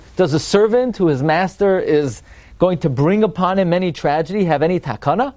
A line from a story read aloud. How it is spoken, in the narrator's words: Rabbi Yochanan cried whenever he got to this pasuk